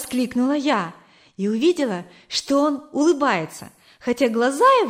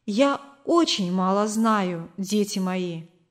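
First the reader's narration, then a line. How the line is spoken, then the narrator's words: Plain. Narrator (Russian): сказала она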